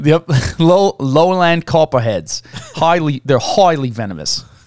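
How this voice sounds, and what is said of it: Bad put-on Australian accent. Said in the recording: “my bad Australian accent”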